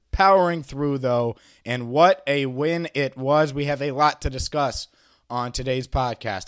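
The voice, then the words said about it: Slightly hoarse voice. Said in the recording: “I'm a little hoarse. I'm a little under the weather.”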